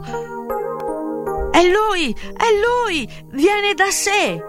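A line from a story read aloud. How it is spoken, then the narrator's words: Crowd shouting. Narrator (Italian): la folla gridò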